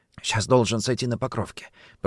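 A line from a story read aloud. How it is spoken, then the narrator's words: Whispered. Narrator (Russian): прошептал Орлов Кочкину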